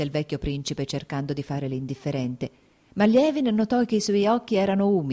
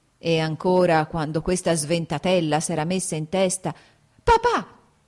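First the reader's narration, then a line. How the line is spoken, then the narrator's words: Shouted. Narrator (Italian): gridò Kitty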